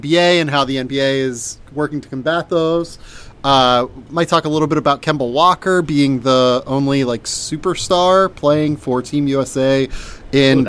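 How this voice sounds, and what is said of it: Sick-sounding voice. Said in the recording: “I'm like pretty sick, sort of. Um, yeah. I'm finally getting over it. You might be able to tell in my voice”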